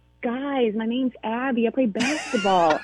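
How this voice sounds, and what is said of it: Put-on American accent. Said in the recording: “can you do an American accent? Do you try to do an American accent too?... it's so hard to do”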